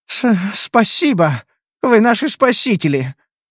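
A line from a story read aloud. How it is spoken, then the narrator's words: Quavering voice. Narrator (Russian): проговорила женщина дребезжащим голосом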